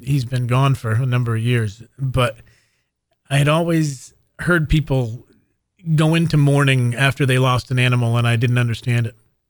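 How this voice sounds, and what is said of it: Choked-up, emotional voice. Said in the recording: “I kind of get choked up now.”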